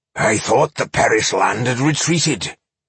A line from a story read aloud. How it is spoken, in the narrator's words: growled Boindil